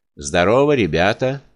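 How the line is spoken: Brisk, good-natured cheer. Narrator (Russian): сказал он тем бодрым и добродушно веселым тоном, которым приветствуют обыкновенно подчиненную толпу добрые и благодушные начальники

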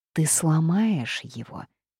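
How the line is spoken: Tender singsong. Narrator (Russian): нежно пропела она

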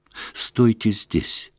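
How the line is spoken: Quick whisper. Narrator (Russian): быстро прошептал он

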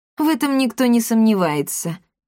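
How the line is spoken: Muffled grumble. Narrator (Russian): глухо буркнул король Рекс

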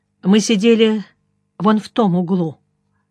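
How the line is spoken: Lifeless voice. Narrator (Russian): Тамара сказала безжизненным голосом

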